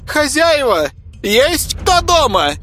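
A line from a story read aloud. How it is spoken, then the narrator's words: Loud shout from afar. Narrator (Russian): громко крикнула еще от забора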